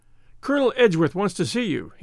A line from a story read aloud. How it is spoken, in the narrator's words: he panted